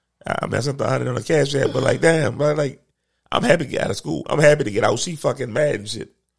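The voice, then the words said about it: Rough, worn-out voice. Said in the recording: “my voice is trash too, by the way. ... my voice is trash right now. Like I normally sound so fucking sexy.”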